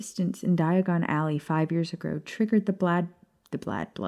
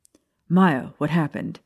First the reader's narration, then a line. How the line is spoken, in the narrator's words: James bellowed